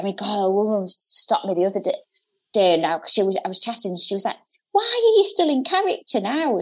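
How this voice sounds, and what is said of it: Hull accent. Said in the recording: “the accent, being from Hull”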